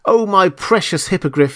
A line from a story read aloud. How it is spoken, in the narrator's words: he cried